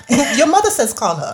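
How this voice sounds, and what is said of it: Failed attempt at Chinese accent. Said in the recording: “Even though that wasn't a Chinese accent ... That wasn't. I don't even know what that was.”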